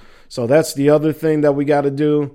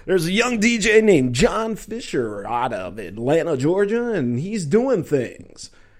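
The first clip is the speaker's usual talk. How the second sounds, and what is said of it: Put-on radio DJ voice. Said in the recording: “Let me get my DJ voice here.”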